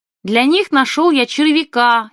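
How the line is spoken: Child shouting. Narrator (Russian): ребятам крикнул Шурка

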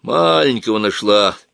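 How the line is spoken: Grumbling. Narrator (Russian): ворчал

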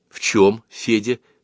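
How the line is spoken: Plain. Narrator (Russian): спросила Луна

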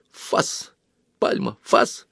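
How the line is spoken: Quiet command. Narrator (Russian): тихонько скомандовал

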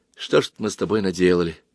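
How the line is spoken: Quiet. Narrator (Russian): староста авиамоделистов тихо сказал

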